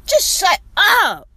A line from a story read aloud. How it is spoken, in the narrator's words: I screamed